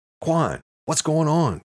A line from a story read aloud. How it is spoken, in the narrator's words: Eamon yelled